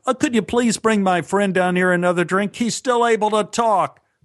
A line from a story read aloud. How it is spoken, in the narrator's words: He yelled to an imaginary waitstaff